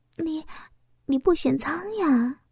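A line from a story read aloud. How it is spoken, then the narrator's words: Excited whisper. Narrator (Chinese): 我说不出的兴奋，小声的说道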